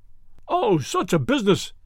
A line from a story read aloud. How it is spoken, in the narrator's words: cried